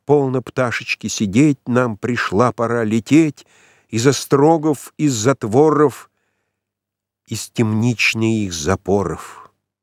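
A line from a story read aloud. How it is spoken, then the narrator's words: Childlike, silvery ringing singing. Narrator (Russian): Девушка пела детским, как серебро звенящим голосом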